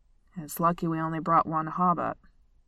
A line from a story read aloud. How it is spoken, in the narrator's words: Dwalin grumbled